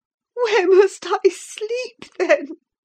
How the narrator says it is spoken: I sobbed

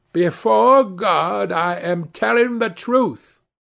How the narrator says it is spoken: she cried

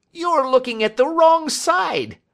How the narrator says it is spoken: he shrieked

